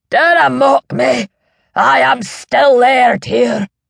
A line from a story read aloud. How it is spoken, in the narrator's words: shouted the old man